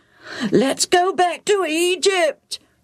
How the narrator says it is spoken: the crowds wailed

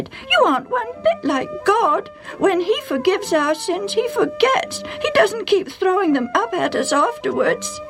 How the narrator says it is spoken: Sally cried

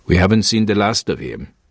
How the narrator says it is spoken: the captain said grimly

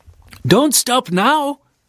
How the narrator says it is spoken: the old men and women would yell

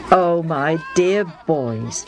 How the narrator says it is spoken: Madin says

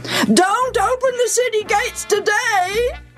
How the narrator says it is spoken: yelled the king

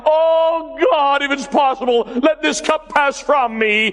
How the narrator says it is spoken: just before He died, He cried out

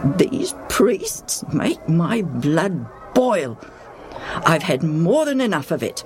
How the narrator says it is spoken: Madin mutters to himself

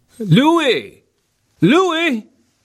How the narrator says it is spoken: Tony Zamperini yelled

